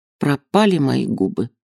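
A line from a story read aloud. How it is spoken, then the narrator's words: Whisper. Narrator (Russian): шептала она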